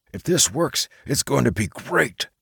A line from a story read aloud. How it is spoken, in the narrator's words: Mike whispered loudly at Red Baron